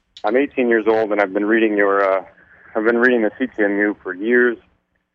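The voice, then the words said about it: Shaky, nervous voice. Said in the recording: “forgive me if my voice is shaky”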